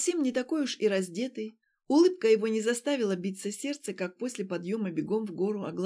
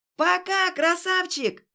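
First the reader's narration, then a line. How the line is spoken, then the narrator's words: Yelling. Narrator (Russian): Уже орала она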